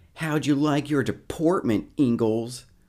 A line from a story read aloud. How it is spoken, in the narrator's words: Harold Watson yells out